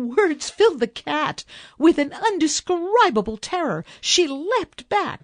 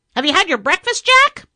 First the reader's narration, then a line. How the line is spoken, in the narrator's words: The parrot, seeing the danger upon him, unexpectedly called out